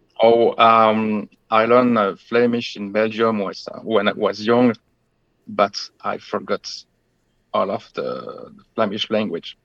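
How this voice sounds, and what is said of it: Traditional French accent in English. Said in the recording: “your accent sounds more traditional French to me than anything”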